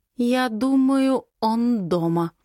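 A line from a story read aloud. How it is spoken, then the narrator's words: Slow speech. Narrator (Russian): проговариваю медленно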